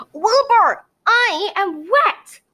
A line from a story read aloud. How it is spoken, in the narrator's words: Gemma exclaimed